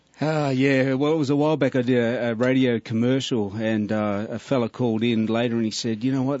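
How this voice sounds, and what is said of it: Australian accent. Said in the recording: “people hearing this accent might think he's just making this up ... that was the worst fake Australian accent I've ever heard”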